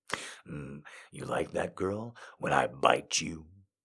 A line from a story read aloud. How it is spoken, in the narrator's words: asked in his low voice